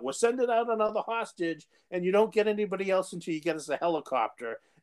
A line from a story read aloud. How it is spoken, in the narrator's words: Chris Rock yells out